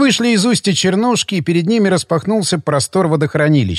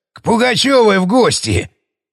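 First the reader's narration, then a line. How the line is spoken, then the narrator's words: Short guffaw. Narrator (Russian): хохотнул Леонидыч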